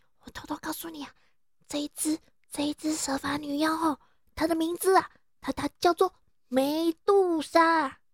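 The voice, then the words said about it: Hushed, quiet storytelling voice. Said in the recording (Chinese): “小声一点”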